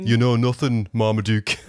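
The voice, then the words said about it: Put-on Sheffield accent. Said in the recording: “Sean Bean ... Nailed the accent ... Was that a Sheffield accent?”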